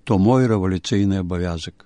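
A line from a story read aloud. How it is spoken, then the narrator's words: Sad reply. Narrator (Ukrainian): той сумно відказав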